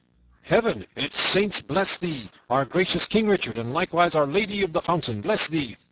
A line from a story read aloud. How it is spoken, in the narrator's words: above all the tumult and the shouting, a great voice was heard roaring